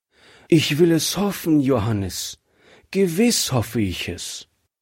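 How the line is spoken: Sad wife answering. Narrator (German): antwortete seine Frau traurig

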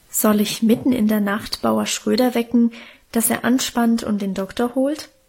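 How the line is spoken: Hesitant question. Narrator (German): fragte der Herr Pastor zögernd seine Frau

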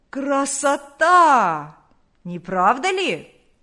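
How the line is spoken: Hoarse shout. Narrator (Russian): Крикнул хриплым голосом

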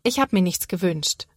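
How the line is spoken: Plain. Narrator (German): sagt Sophia

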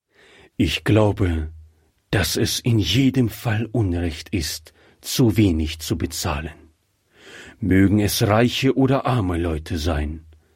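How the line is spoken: Plain answer. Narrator (German): antwortete ihr Mann

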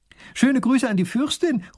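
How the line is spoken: Princess calling after. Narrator (German): ruft die Prinzessin noch hinterher

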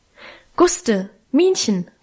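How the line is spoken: Loud calling. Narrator (German): rief sie laut

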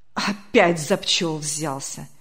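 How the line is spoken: Annoyed grumbling. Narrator (Russian): с досадой проворчал председатель

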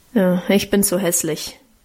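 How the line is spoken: Grumbling. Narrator (German): brummte Guste

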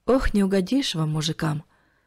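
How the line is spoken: Sighing elderly woman. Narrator (Russian): вздохнула пожилая женщина

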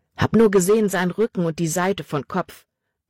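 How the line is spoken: Plain reply. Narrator (German): antwortete Jordan

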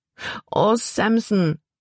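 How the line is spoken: Wailing. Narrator (German): jammerte Libby

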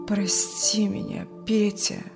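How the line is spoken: Hollow, muffled. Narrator (Russian): глухо сказал Юрген

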